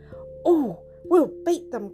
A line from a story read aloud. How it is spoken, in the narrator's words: cried Humpty